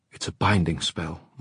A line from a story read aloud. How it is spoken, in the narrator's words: Mark whispered into her hair